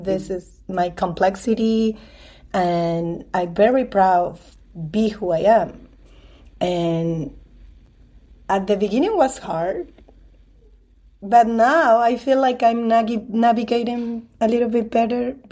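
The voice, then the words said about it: Latina-accented English. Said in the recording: “I am Latina. This is my accent”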